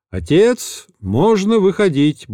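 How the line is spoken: Cheerful announcement. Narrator (Russian): бодрым голосом объявил Павел

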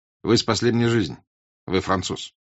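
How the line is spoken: Plain. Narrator (Russian): сказал он

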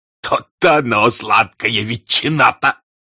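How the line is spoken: Laughing reply. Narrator (Russian): отвечал другой с хохотом

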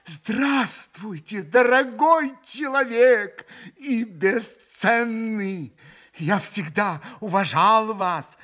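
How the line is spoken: Joyful, quick reply. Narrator (Russian): Радостно и стремительно отозвался Митя

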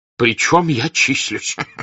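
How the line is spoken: Laughing. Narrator (Russian): засмеялся князь Николай Андреевич

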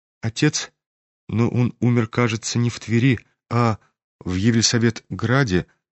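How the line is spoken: Timid remark. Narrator (Russian): робко заметил князь генералу

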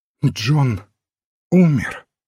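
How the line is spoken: Trembling voice. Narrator (Russian): спросила Опол дрожащим голосом

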